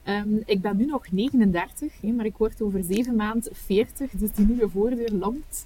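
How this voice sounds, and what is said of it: West Flemish Kortrijk accent. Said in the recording (Dutch): “dat hoor je ongetwijfeld aan mijn accent, een, een, een, echte Kortrijkse, West-Vlaming.”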